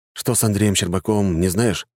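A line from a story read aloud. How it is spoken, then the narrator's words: Plain. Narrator (Russian): спросил Руслан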